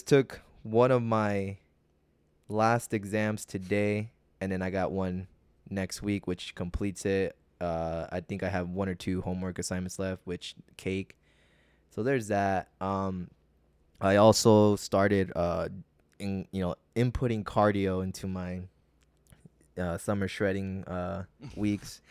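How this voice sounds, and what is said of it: Sad-sounding speech. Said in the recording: “why do you sound so sad”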